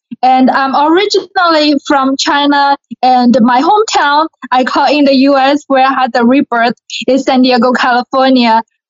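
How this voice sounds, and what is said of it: Chinese accent with a southern drawl. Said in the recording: “you have an accent from China, but you still say words like y'all. And you have the southern drawl”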